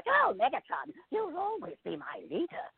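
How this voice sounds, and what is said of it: Nervous cartoon robot character voice. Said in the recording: “in like a kind of Starscream-y nervous voice”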